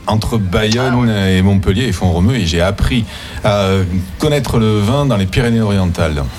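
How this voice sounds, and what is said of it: Southern French accent. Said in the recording (French): “Autre accent du Sud également, peut-être pas de Montpellier ... Du Grand Sud, oui, je suis originaire de Toulouse.”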